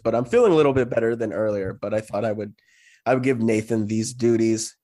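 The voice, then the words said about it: Sick, recovering voice. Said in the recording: “am a little bit sick. My voice is. It's it's recovering from from my sickness”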